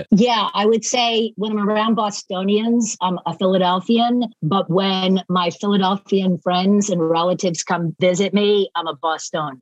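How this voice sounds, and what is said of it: Mixed Philadelphia and Boston accent. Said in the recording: “you don't have the A accent, so you definitely don't have the Boston accent ... I have this like crazy hybrid of Philadelphia and Boston”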